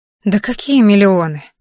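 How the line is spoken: Sigh. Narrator (Russian): вздохнула я

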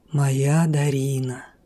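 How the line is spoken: Husky, admiring male voice. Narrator (Russian): В его хрипловатом, ласкающем мой слух голосе звучало восхищение

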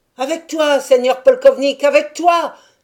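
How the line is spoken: Crowd shouting together. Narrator (French): s'écrièrent tous ceux qui faisaient partie du polk de Taras

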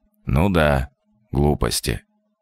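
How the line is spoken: Wooden, flat voice. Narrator (Russian): деревянным голосом отозвался Александр Алексеевич

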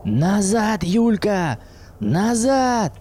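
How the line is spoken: Shout. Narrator (Russian): крикнул ей Макс

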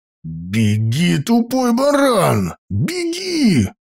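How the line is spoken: Growl. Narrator (Russian): прорычал Илья

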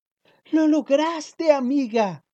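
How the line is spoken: Group shouting happily. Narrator (Spanish): gritaron felices todos

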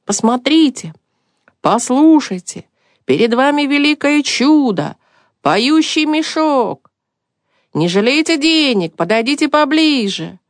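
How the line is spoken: Loud shouting. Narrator (Russian): он принялся кричать громким голосом

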